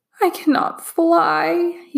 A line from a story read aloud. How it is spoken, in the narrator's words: he sobbed